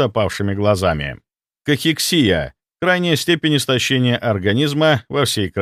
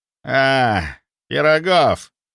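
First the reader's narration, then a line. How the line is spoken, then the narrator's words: Hoarse wheeze. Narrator (Russian): прохрипел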